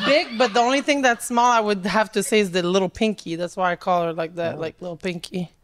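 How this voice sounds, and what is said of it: French-Canadian Montreal accent. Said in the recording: “what's your accent? ... I'm from Canada, Montreal. ... I know Canadians that don't sound like you. ... Canadian A, but like from the French part.”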